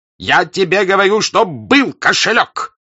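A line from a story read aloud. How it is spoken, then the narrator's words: Shouting. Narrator (Russian): кричал Денисов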